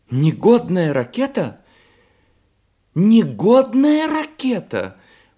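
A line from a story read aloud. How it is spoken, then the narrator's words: Exclaimed. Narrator (Russian): воскликнула она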